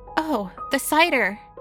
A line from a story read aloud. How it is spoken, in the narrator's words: she had cried